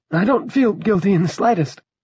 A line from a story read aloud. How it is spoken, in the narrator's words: Drogon said, but that quavering, petulant note was back in his voice